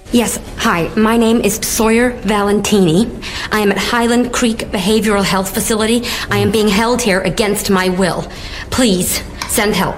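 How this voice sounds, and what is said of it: British actress doing American accent. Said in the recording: “her British, naturally British accent, but she dropped it for this movie role ... how did she get rid of her accent? ... She sounds so American.”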